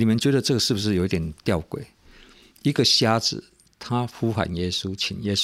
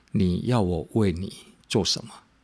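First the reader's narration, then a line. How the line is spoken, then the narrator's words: Gentle. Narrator (Chinese): 耶稣用很温柔的态度对他说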